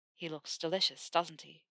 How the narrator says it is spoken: Theo murmured against her ear

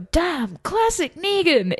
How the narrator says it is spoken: is just so like what mad Negan fans like to shout

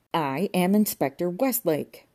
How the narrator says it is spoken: roared Inspector Westlake

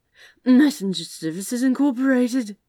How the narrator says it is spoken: he slurred

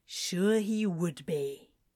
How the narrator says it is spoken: Crowley grumbled

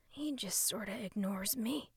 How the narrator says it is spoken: Russ said so quietly he wasn't even sure it had come out of his mouth

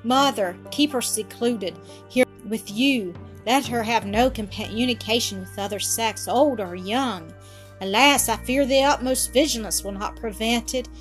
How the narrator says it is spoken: cried, having a deep drawn sigh

